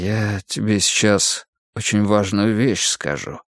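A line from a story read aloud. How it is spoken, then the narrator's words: Sudden quiet speech. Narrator (Russian): вдруг тихо проговорил Олег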